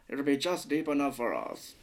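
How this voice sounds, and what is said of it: Deep, put-on character voice. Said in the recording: “We've got to get that deep voice too. With the deep, deep. ... I'm trying to do Laszlo from What We Do in the Shadows”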